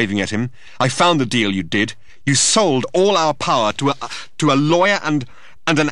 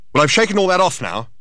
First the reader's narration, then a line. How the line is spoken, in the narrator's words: shouted Thor